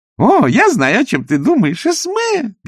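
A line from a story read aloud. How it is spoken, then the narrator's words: Squeak. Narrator (Russian): пискнула она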